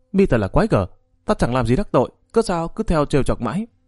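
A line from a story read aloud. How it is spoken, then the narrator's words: Angry. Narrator (Vietnamese): Trúc Thanh giận dữ nói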